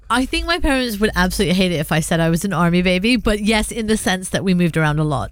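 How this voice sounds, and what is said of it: British London-like accent, mixed inflections. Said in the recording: “your accent, although it's London-esque and it's British, there's a few various inflections”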